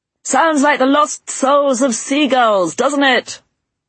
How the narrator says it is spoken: he shouted above the din

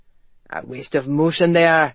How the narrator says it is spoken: he murmured

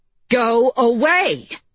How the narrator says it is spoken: she shouted

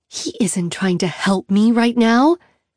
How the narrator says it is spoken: Annie hisses

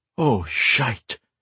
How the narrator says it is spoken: Grey muttered

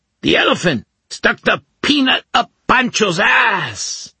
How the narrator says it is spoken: Chintibent shouted

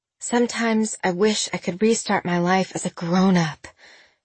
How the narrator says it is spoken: she said with a sigh

